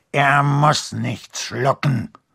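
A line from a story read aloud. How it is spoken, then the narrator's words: Growled. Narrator (German): knurrte Skrump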